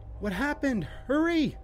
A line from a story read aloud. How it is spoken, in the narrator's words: cried